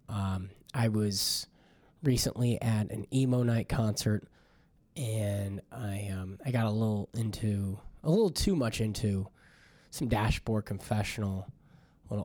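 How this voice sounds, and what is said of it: Deeper, rougher voice than usual. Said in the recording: “my voice is sounding a little bit manlier than it usually does.”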